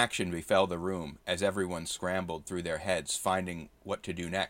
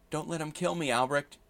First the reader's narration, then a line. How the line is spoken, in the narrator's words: Edith pleaded